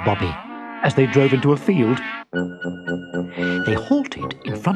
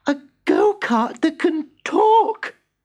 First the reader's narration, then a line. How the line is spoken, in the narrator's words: gasped Bobby